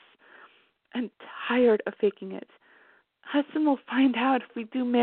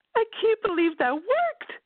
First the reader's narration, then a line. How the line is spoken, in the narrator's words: Nayeli exclaimed